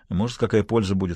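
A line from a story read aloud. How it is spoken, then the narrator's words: Plain. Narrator (Russian): сказал он ей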